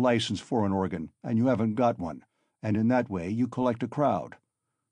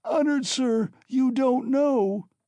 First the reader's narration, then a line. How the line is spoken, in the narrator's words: screamed Katerina Ivanovna